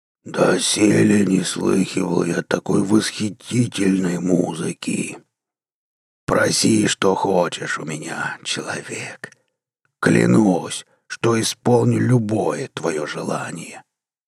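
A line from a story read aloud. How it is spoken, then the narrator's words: Hoarse croak, seven-eyed creature. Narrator (Russian): прохрипел семиглазый Ашмур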